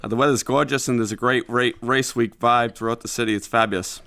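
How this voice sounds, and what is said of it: Boston American accent. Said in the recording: “He's a native of Boston, which you won't be able to escape ... I love your accent”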